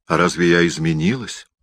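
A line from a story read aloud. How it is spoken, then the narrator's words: Plain. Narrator (Russian): спросила она меня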